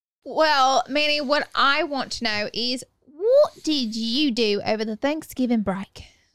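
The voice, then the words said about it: Speaks in a put-on accent. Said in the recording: “where you learned that accent”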